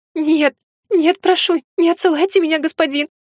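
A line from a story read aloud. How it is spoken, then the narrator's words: Sobbing. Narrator (Russian): рыдала она, всхлипывая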